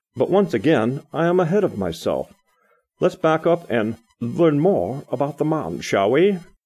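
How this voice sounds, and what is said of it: Attempted British accent. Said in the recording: “that was my last attempt at a British accent.”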